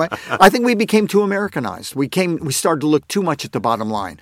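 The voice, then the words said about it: Funny-sounding accent. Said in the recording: “my funny accent”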